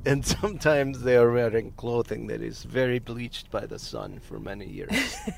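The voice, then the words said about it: Vague put-on foreign accent, Russian-like. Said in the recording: “Are you doing Russian? ... I'm not racist enough to pinpoint an accent. I just spread it across the board.”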